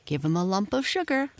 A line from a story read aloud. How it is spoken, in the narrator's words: said Patrick